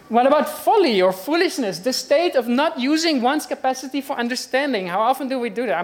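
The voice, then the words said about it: Dutch accent in English. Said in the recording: “this Dutch accent? I don't have the great British accent”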